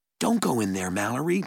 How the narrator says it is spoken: Jared said

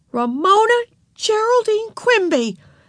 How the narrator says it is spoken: exclaimed Beezus when she had found her voice

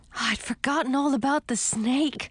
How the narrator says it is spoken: I gasped

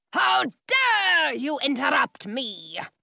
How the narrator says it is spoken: He bellows

